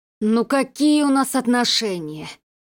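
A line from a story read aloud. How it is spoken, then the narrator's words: Groaned. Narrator (Russian): простонал Сергей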